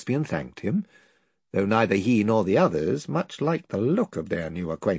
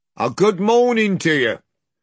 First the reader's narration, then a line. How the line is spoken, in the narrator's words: one of whom, a big, black-haired fellow, shouted out